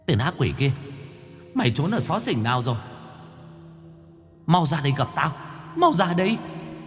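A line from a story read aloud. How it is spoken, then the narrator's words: Shrill hiss. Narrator (Vietnamese): Cô rít lên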